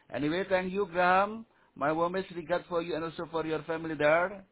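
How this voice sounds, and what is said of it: Foreign accent, hard to understand. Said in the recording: “Your accent is a little bit difficult to understand.”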